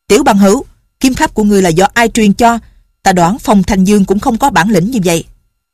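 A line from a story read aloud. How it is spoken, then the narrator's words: Old man shouting. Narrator (Vietnamese): Lão Nhậm ... quát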